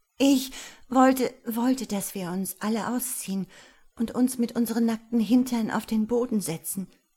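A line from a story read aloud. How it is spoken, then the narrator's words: Stammering. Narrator (German): stammelte Jasmina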